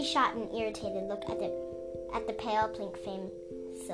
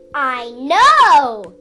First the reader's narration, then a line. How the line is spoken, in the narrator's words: Danaid shouted back